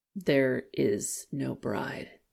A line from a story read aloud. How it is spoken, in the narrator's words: said in a flat voice